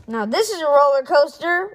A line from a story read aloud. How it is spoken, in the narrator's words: Rip shouted